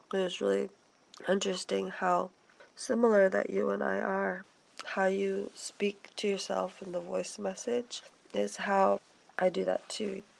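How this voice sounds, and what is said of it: Voice sounds a little wonky. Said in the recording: “my voice is gonna sound a little wonky just because I'm getting over laryngitis. ... And also, the flu.”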